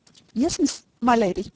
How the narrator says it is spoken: stammered Simpson

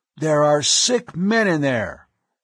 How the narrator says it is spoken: Hovan's voice boomed out

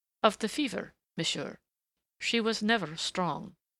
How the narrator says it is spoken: he answered calmly enough

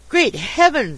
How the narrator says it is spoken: exclaimed my acquaintance, leaning up against a lamp-post for support

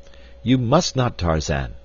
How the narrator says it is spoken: cried D'Arnot

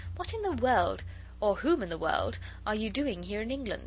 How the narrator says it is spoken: added merrily

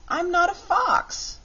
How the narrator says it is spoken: cried Button-Bright

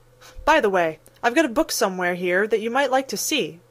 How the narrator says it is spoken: said the oldest boy of the party

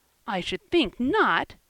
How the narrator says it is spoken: exclaimed Diana indignantly

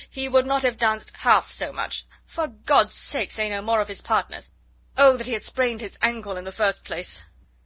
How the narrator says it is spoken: cried her husband impatiently

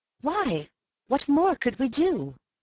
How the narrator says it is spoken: I exclaimed in soft derision

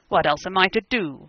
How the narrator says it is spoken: he cried hotly, in Bohemian

